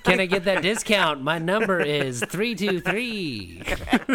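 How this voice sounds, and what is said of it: Nerdy computer-geek character voice. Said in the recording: “you sounded like a computer nerd”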